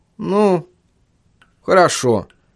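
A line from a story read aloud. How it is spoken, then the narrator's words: Uncertain. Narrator (Russian): неуверенно произнес Чарли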